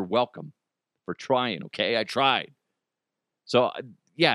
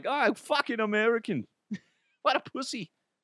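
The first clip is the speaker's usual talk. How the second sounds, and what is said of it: Weak put-on local accent. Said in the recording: “That's not even a good accent,”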